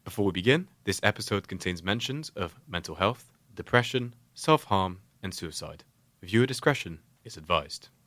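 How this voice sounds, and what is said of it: Polished announcer-style podcast voice. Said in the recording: “It was a beautiful voice. ... That was such a good podcast voice.”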